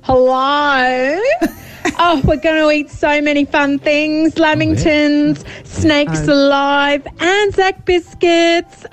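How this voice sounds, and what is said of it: Put-on Australian accent. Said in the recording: “We're going to Australia land. I need to practice my accent.”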